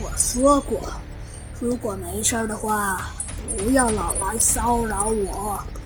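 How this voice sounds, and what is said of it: Low, stern, majestic character voice. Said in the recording (Chinese): “他呀用他那低沉而又威严的声音说道”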